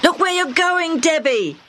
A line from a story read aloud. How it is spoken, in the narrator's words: Hammy shouted